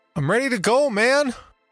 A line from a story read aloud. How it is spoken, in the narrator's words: I yelled